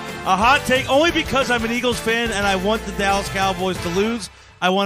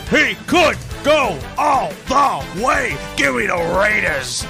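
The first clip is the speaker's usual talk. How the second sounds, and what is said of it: Imitates a sportscaster's voice. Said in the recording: “my best Chris Berman impression”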